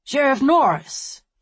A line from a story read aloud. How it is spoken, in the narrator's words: exclaimed, his round face beaming